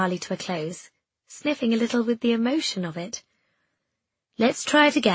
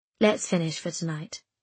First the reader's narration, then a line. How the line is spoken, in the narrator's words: Prim said quietly